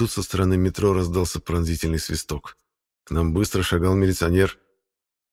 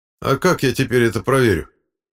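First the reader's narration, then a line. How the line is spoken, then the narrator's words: Stern question from policeman. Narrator (Russian): строго спросил милиционер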